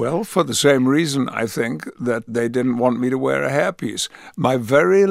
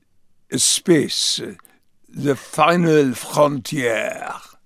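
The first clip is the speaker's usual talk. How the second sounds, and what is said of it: Put-on French accent. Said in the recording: “I should have a French accent ... that recording that sounds something like this”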